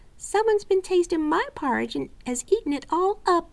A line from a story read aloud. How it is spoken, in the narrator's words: cried the little wee bear in his little wee voice